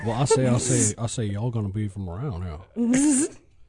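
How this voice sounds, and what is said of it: Put-on slow Southern accent. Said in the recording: “southern accent ... a nice Savannah accent ... like molasses coming out of your mouth”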